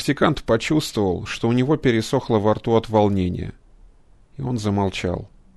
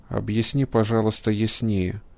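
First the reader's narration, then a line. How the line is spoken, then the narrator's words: Very quiet request. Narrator (Russian): очень тихо попросил физик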